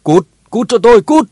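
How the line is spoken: Screaming. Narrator (Vietnamese): gào lên

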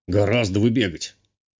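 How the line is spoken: Grumbling commandant. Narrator (Russian): буркнул комендант

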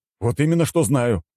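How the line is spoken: Exclamation. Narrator (Russian): воскликнул Александр

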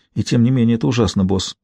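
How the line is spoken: Breathy exhale. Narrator (Russian): выдохнула Стэсси

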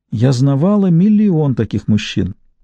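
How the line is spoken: Sad, to herself. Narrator (Russian): Она печально сказала себе

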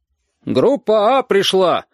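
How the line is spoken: Shout. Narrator (Russian): крикнула Оксана

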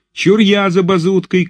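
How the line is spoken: Shouted, unknown voice. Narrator (Russian): крикнул чей-то голос

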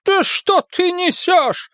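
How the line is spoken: Exclaimed. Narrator (Russian): воскликнула кормилица

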